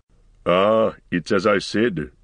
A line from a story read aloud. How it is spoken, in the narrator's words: growled Gimli